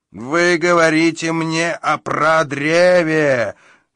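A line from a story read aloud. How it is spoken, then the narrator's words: Roared. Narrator (Russian): взревел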